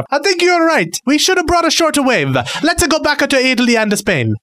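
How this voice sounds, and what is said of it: Put-on Italian accent. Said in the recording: “I come from Italy originally. That's my accent.”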